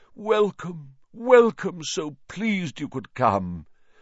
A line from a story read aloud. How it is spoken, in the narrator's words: he said mournfully